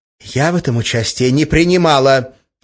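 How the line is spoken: Sharp reply. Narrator (Russian): резко ответила Ольга

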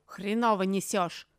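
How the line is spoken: Vicious bark. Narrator (Russian): злобно рявкнул Лаймах

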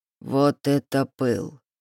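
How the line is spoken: Drawn-out drawl. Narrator (Russian): протянул Рейнер

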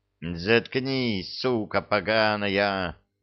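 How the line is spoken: Vicious hiss. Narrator (Russian): злобно прошипел связанный толстяк

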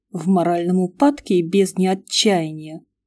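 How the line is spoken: Grumbling mutter. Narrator (Russian): пробурчала я

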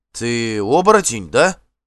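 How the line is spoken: Uncertain question. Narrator (Russian): неуверенно спросил Эйвенхёльд

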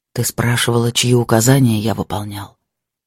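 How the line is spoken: Quiet speech. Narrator (Russian): тихо сказал

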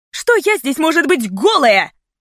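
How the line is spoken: Echoing shout. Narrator (Russian): Прокричала я, и эхо моих слов загрохотало по коридору, как пушечный выстрел

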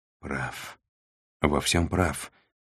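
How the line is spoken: Sighing. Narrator (Russian): Сантьяго вздохнул

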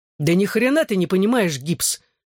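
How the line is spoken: Snapping retort. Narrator (Russian): огрызнулся я

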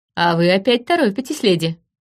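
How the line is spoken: Laughing. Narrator (Russian): засмеялся он

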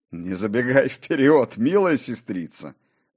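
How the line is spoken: Laughing. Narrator (Russian): засмеялся и Кор

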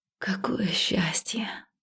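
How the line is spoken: Breathless exhale. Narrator (Russian): выдохнула

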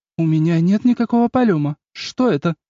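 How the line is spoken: Confused question. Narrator (Russian): растерянно спросила я

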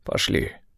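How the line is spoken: Hoarse male voice. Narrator (Russian): сказал он хрипло

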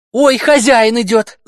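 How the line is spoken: Shout with feigned fright. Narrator (Russian): закричала она с притворным испугом

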